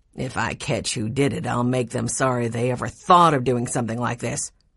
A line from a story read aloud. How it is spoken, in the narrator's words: growled Dr